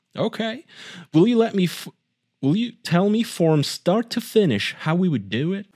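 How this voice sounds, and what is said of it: Convincing put-on redneck accent. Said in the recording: “Your redneck accent is really good.”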